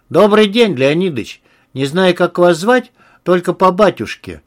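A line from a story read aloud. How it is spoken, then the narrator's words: Plain. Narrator (Russian): сказал Антон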